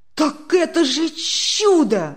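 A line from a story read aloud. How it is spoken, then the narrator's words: Delighted exclamation. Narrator (Russian): в восторге воскликнул Демьян Лукич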